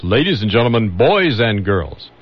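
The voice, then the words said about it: Old-time radio announcer voice. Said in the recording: “I also use my radio voice... See, I have to use my old-time radio voice.”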